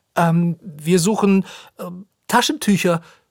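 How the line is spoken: Stammering, sniffling loudly. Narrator (German): stottert Lisa und zieht lautstark die Nase hoch

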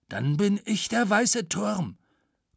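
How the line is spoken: Growl. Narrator (German): knurrte Matze

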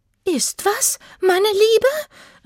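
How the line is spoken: Calling out. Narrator (German): rief ihre Schwester

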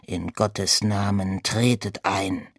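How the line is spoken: Sullen monk growling. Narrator (German): der Mönch missmutig knurrte

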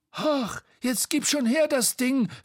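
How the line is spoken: Angry shout. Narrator (German): rief Bo ärgerlich

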